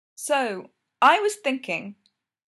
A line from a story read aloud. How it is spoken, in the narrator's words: he said loudly